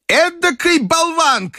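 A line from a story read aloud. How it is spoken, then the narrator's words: Grandmother shouting. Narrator (Russian): крикнула бабушка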